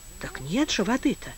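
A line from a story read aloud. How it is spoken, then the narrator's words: Unsure voice. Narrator (Russian): неуверенно сказал кто-то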